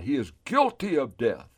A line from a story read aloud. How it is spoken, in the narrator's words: And they cried out